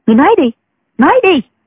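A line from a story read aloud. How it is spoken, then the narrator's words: Harsh, urging. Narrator (Vietnamese): giọng Đinh Mẫn Quân gay gắt dục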